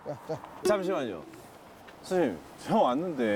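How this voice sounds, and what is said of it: Usual voice. Nothing is said of it.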